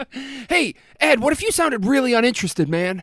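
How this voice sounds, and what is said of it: Imitates another person's voice. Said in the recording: “my Ty impression. I don't know if it's any good.”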